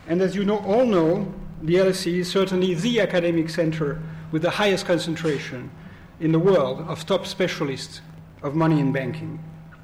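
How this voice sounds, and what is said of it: Strong French accent in English. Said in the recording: “with a terrible French accent”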